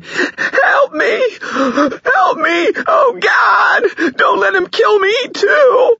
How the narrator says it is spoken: She let out a scream, wailing

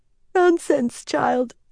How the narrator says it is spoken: Verin said, yawning again

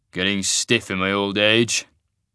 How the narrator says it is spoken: he grumbled

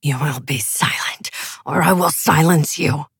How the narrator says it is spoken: Broom snarled

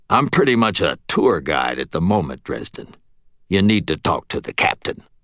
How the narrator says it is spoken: He grunted

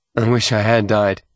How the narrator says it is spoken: he said flatly

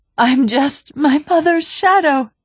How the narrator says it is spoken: she sobbed

